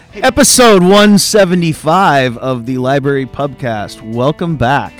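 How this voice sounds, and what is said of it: Put-on announcer radio voice. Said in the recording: “I'm working on my radio voice ... That sounds dumb, I know ... That's not very good.”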